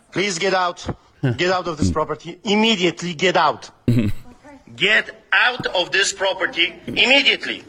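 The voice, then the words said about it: Polish accent. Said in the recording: “you can hear the Polish accent. He doesn't sound like he's from Canada”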